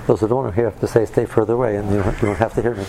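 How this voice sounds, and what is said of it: Quiet, strained voice. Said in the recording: “I'm going to talk quietly because my voice is a little challenged.”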